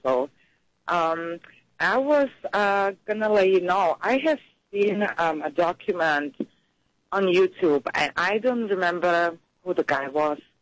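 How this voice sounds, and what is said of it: Voice with a cold. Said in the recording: “I have a little cold”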